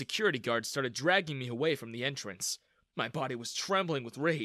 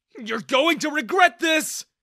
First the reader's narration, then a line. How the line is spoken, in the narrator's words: I yelled at Daniel